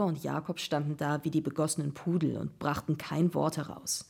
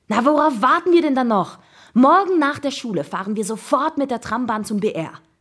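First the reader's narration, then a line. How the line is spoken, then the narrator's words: Call. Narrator (German): rief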